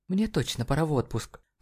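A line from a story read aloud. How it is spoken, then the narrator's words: Muttered. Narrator (Russian): пробормотала она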